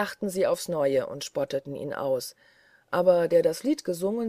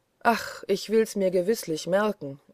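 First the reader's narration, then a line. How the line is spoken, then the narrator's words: Sighing reply. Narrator (German): erwiderte Kohlenpeter seufzend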